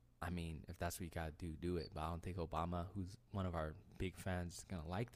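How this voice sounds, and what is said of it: Usual voice. Nothing is said of it.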